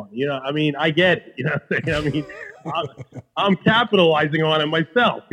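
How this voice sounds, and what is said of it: New York Queens accent. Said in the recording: “My accent is funny. How I talk is funny. ... my Queens accent”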